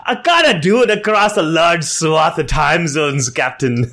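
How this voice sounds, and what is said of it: Poor Scotty impression. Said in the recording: “my horrible Scotty impression”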